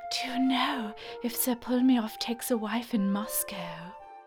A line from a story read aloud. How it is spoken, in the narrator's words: Jennifer breathlessly uttered